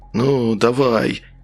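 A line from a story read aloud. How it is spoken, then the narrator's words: Through gritted teeth. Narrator (Russian): процедил сквозь зубы Степанов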